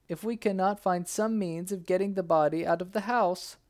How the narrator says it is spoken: wailed

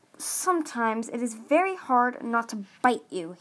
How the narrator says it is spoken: he growled

